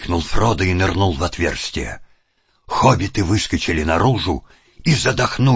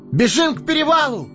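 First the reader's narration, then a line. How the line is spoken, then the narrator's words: Ringing shout. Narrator (Russian): звонко закричал Фродо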